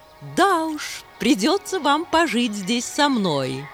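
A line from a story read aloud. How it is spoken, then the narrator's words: Laughing. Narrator (Russian): снова засмеялась подруга Хемы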